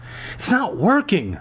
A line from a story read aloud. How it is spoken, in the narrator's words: Lauren groaned